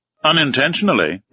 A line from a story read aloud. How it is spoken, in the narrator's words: replied, raising his voice a little